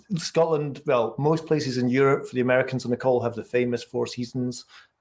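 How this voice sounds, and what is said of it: Thick Scottish accent. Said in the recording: “I'm in Edinburgh, the capital of Scotland, my homeland. So the accent's going to be particularly thick”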